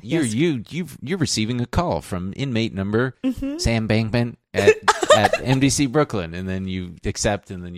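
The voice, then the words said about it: Imitates another person's voice. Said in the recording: “Too bad an impression... all we need now is a really dry mouth”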